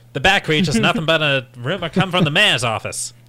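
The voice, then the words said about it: Old-timey 1940s city accent. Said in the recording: “I want that movie to take place in the 40s where they've all got flat caps. And, they're talking this accent.”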